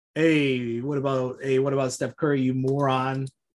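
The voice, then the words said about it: Put-on New York accent. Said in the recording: “that shitty New York accent”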